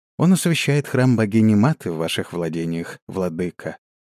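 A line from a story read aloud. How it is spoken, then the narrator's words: Calm. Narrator (Russian): говорила Мата спокойно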